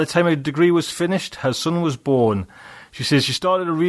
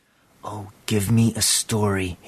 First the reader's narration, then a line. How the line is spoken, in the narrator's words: he whispered